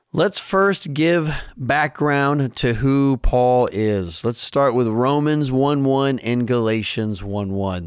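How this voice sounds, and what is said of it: Raspy voice. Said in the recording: “my voice sounds a little raspy. I had some serious drainage in my throat”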